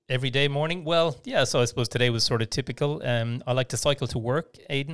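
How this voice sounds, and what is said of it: Irish accent, west of Ireland. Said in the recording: “you can tell from my accent, I didn't grow up around these parts. I'm actually from the west of Ireland originally”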